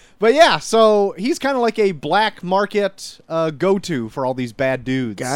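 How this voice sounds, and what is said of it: Usual voice. Nothing is said of it.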